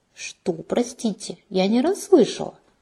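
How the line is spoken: Offended question. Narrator (Russian): обиженно переспросила я

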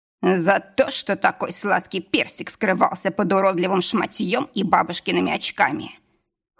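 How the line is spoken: Playful, lewd snort. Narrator (Russian): хмыкнул игриво и пошло

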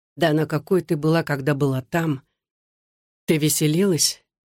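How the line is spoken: Very sad voice. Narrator (Russian): Голос Александра звучал так печально

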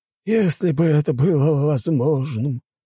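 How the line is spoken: Sighing. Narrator (Russian): вздохнул тот

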